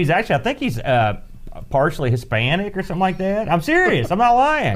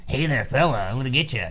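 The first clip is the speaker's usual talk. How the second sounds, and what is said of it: Nasally imitation of another person's voice. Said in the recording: “he has a real nasally kind of voice ... That's my Bronson.”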